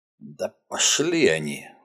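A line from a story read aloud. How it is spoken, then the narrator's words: Strained, forced out. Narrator (Russian): выдавил Уотсон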